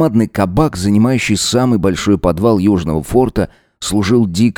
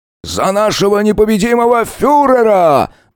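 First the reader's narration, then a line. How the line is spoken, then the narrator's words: Yelling. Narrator (Russian): заорал уйбуй копыта Шибзич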